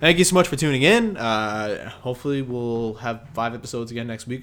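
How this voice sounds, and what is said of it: Strained, fading voice. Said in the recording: “my voice is about to escape me”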